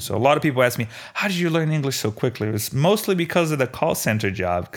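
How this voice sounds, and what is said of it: Slight Brazilian accent. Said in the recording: “my Brazilian accent faded away a little bit”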